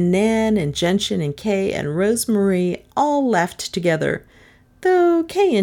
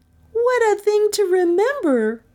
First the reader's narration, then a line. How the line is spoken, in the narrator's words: Rosemarie cried